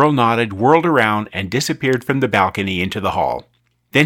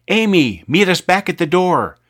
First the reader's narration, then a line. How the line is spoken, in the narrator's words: Zack yelled